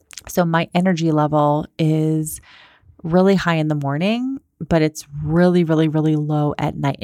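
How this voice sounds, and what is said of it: Quiet, soft, slow low-energy voice. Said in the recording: “my tone of voice is very quiet. It's like soft. It's like kind of slow ... my tone of voice is much slower and softer right now”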